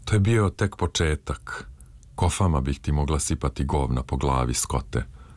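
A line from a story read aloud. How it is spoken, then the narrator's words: Breathless, crumbling voice. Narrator (Serbian): upitala je i odjednom ostala bez daha, a onda izmrvljenim glasom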